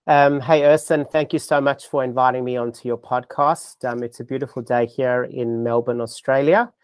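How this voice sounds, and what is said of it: South African accent, softened by Australia. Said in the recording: “it's actually South African. But I have been living in Australia in Melbourne for 25 years ... my misplaced accent, that's why it doesn't sound Australian”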